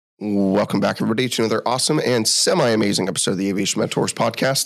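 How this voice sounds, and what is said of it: Sick voice, cracking. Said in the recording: “we're both sick today... tell from my voice, it might be cracking like I am an eight-year-old little boy”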